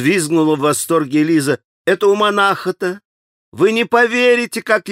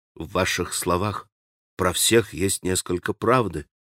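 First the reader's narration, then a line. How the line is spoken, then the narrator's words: Quietly. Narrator (Russian): проговорил тихо Алеша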